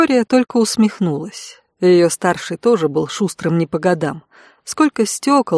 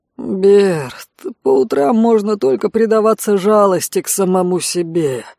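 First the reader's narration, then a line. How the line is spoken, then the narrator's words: Mumbled mid-yawn. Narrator (Russian): Зевнув так, что за ушами хрустнуло, пробурчал Конт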